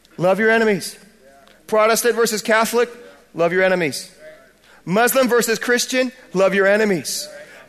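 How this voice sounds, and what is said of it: American accent. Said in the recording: “my American accent ... my American accent”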